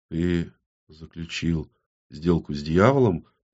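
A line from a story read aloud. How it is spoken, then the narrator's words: Barely audible woman asking. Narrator (Russian): едва слышно поинтересовалась женщина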